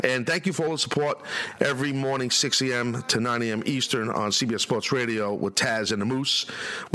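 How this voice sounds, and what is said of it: Raspy voice. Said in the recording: “let me deal with my raspy voice”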